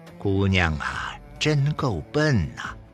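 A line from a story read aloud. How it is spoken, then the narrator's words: Inward lament. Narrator (Chinese): 潘荣心中哀叹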